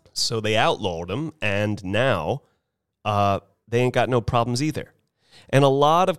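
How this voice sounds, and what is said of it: Usual voice. Nothing is said of it.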